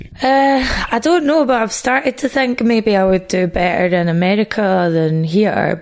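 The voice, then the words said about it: Scottish accent. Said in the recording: “my accent ... when you're Scottish and living in England”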